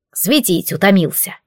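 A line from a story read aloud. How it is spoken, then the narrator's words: Grumbling. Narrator (Russian): проворчало зеркало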